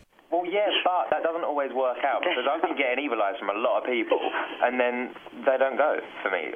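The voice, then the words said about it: Australian or English accent. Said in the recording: “with that accent? ... Not with that accent ... I don't know if he's Australian or English, but I like it.”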